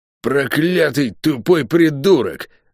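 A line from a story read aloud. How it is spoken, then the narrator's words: Angry growl. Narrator (Russian): зло прорычала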